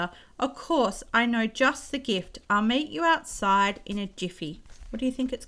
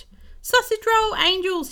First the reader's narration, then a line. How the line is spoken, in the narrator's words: he cried, happily